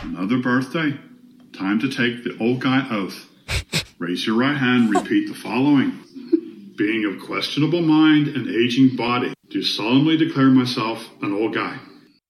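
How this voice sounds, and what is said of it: Irish accent. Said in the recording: “the Irish accent again ... It's a great accent too, the Irish accent”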